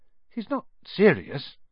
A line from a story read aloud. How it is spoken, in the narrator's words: he muttered to Percy